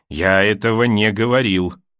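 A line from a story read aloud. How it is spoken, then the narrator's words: Wooden, flat voice. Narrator (Russian): деревянным голосом сказал Джорах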